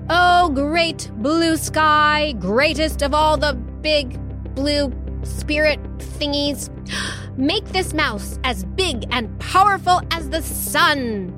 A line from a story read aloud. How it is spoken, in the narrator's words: throwing back his head, he shouted